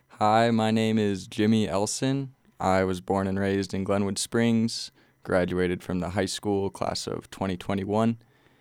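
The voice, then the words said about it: Put-on radio announcer voice. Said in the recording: “I'm trying to do my best radio voice right now”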